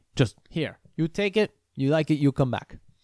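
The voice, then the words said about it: Imitated Colombian accent. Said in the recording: “That's even his accent.”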